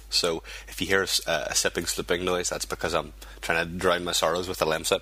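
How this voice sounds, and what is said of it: Congested voice from a cold. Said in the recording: “I've got a bad cold”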